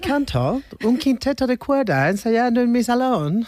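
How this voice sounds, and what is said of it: Put-on elderly English lady accent. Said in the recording (Spanish): “¿Ese acento? ... Soy una señora mayor inglesa”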